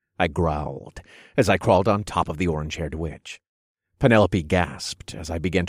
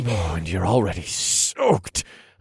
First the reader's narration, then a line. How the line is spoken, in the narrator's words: I grunted